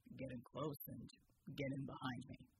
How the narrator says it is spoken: Bulwark said calmly

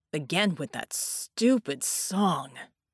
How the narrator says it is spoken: Red snarled

